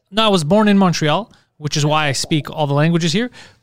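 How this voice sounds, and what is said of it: Strong French Canadian accent. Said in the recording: “have a huge accent ... we would say you're French Canadian”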